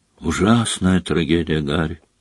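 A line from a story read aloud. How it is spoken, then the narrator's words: Quiet. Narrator (Russian): негромко произнес Скримджер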